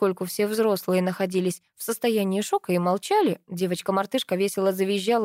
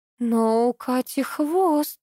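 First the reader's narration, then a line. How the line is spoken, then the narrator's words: Mumbling. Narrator (Russian): промямлила Вера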